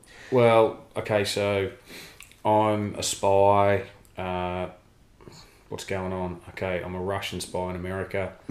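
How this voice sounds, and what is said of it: Strong Australian accent. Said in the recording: “with the strongest Australian accent there is. ... it's taken me years to perfect this Australian accent.”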